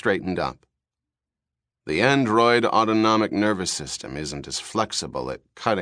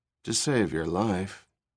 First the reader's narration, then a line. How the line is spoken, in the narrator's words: Rachel murmured